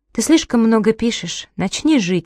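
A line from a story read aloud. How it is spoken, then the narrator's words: Gentle. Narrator (Russian): сказала мягко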